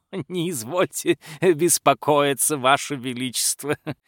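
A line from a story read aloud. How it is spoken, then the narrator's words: Laughing. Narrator (Russian): Рассмеялся боярин дворецкий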